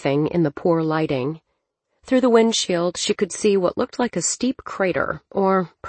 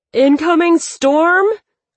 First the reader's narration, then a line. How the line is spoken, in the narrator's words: Nova screamed over the din